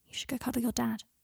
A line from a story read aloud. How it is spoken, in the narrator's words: he whispered into Scorpius's ear